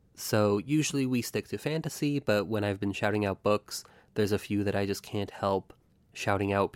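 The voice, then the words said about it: Voice sounds sick. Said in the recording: “apologize for my voice, I'm a little sick”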